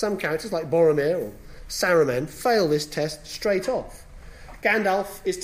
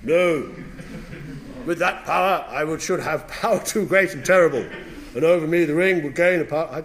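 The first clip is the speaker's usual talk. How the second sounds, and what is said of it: Gandalf voice, slightly drunk-sounding. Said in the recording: “This is my Gandalf voice. ... He sounds a bit drunk.”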